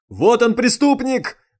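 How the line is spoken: Shouted. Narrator (Russian): закричал майор Фуражкин

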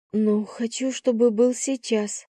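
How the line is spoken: Breathy exhale. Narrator (Russian): выдохнула я

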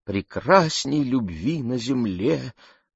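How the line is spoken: Trembling voice. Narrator (Russian): дрожащим голосом продолжила она

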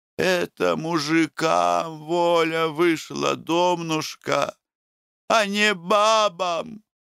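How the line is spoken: Sad reply. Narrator (Russian): грустно ответила Рачителиха

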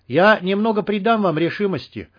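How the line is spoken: Shouted. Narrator (Russian): крикнул Хантер

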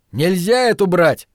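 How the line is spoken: Yell. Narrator (Russian): заорал он

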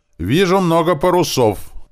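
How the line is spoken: Shout. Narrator (Russian): крикнул зоркий карасик

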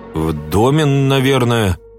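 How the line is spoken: Uncertain reply. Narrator (Russian): неуверенно ответил долговязый

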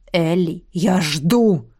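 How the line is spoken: Gruff dragon bark. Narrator (Russian): рявкнул дракон

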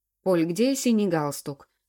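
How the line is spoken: Irritated husband barking. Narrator (Russian): раздраженно рявкнул муж

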